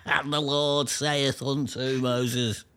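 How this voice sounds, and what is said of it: Put-on Scouse accent. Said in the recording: “How about in Scouts? ... The Old Testament in Scouts.”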